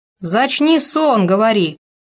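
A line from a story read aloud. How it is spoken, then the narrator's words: Crowd of guests shouting. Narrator (Russian): кричали гости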